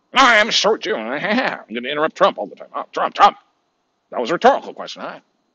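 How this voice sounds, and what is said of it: Imitates another person's voice. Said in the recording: “that was a Chris Wallace fucking impersonation.”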